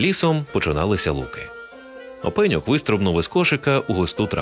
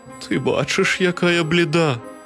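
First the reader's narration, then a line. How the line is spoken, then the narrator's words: Weak voice. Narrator (Ukrainian): кволим голосом відказала хмара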